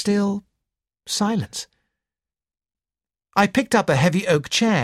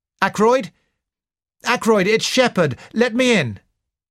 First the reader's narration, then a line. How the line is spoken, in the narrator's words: called out